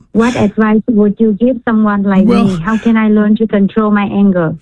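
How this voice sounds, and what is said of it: Vietnamese accent. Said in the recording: “Are you Vietnamese? ... You can tell by my accent.”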